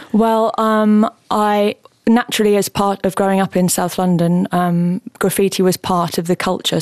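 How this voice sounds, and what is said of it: Southeast London accent. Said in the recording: “from your accent, which is seems to be strikingly similar to mine ... you come from southeast London”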